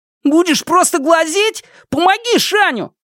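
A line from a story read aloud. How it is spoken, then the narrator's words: Impatient shout. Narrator (Russian): нетерпеливо крикнул Шунь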